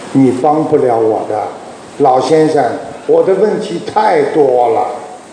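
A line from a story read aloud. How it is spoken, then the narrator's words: Cold. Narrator (Chinese): 这个小伙子冷冷地他说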